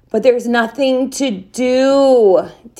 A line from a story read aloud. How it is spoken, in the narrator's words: Lee whined